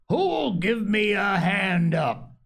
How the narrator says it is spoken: roared

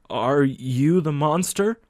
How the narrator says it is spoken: stuttered

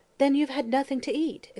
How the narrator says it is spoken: exclaimed Mary Louise with ready sympathy

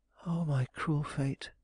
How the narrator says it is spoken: she murmured

